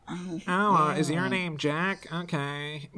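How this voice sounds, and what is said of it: Nasal, nerdy character voice. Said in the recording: “nerd voice ... Do nerd voices just have congested noses to you? ... without plugging your fucking nose ... like your balls have not fully dropped yet”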